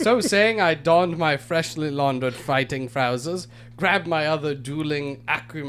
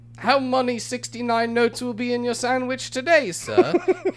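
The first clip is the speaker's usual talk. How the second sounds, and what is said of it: Drawled working-class British accent. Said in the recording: “he drawled in his commoner accent.”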